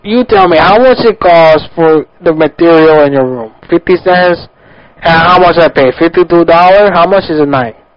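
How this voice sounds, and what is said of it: Put-on foreign accent. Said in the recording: “Accent.”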